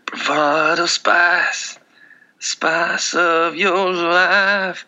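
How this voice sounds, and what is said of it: Raspy rock singer impression. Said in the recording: “That's my Bryan Adams version... It's a little raspy. It's a little Richard Marx, a little Bryan Adams.”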